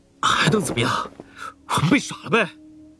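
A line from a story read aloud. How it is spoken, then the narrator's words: Mournful. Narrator (Chinese): 朱顺子哭丧着脸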